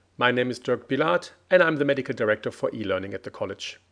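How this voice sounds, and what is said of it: Speaks with a noticeable accent. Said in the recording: “that man with a funny accent”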